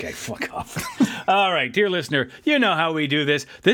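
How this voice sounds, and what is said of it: Usual voice. Nothing is said of it.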